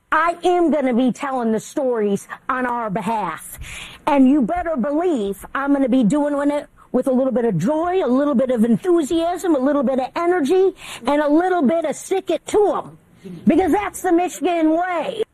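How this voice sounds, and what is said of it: Goofy Michigan accent. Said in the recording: “a bit of a goofy accent. But it's not that goofy if you're in Michigan ... she sounds pretty wacky”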